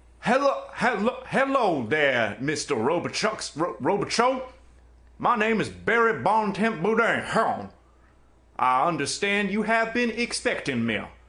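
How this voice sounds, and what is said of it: Put-on Cajun accent. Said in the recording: “all my hours of practicing my Cajun accent”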